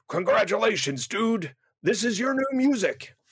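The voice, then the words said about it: Vince McMahon impression. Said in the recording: “That was my Vince McMahon impersonation. ... That's not bad.”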